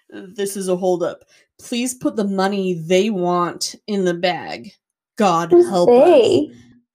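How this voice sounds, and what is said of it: Distinct voice reading a note. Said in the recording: “I'm trying to do a voice so you know which part's the note.”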